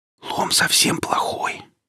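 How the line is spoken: Whisper. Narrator (Russian): сказала Оля Велесу шепотом

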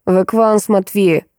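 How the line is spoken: Grumbling, nearly choking. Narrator (Russian): едва не поперхнувшись, проворчала я

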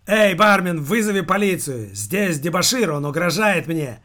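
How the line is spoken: Shout. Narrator (Russian): крикнул рыжий в следующее мгновение

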